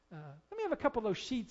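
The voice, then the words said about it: Attempted British accent. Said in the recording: “Of course, I can't do the British accent.”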